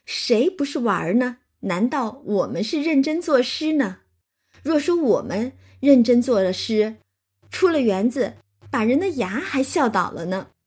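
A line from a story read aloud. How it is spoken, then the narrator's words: Laughing. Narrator (Chinese): 探春和黛玉就都笑着说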